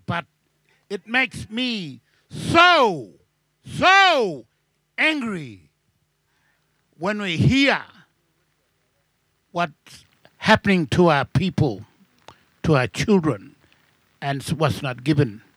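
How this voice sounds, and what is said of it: Shouting angrily. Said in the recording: “I'm sorry I'm shouting,”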